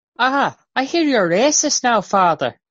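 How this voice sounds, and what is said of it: High-pitched put-on Irish accent. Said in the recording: “you go up four octaves when you do an Irish accent”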